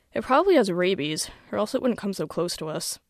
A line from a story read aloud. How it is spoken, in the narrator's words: yawns and says